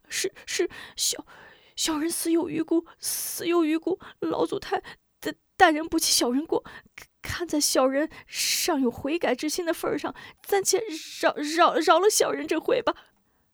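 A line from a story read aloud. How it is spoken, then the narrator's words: Tearful pleading. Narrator (Chinese): 蔡鹏二人…声带哭腔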